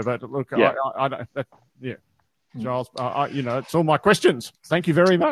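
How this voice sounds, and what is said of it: Irish accent. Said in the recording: “I couldn't help noticing your accent ... You've come from an island, Ireland”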